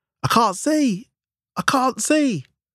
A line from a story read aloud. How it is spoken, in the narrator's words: screamed the leader